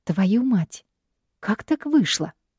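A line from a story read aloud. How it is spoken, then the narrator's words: Confused. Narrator (Russian): растерянно произношу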